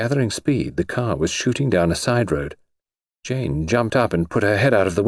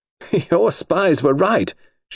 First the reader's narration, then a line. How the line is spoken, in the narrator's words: she said with a laugh